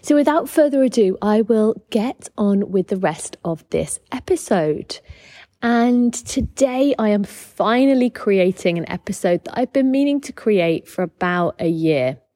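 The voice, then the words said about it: British accent. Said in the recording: “you can tell by my accent that I am British”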